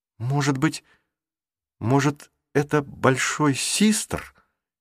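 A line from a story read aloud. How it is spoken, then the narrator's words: Uncertain, hesitant. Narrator (Russian): неуверенно заговорила Марук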